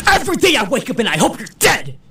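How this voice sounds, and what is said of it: Imitates another person's voice. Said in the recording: “my impression of Adam Driver”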